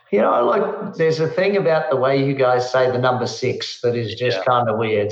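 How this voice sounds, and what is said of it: Australian accent. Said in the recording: “Not a Kiwi, an Aussie? ... Yes, definitely an Aussie, mate”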